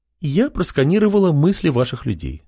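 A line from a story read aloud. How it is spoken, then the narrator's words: Calm reply. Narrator (Russian): спокойно ответила Лена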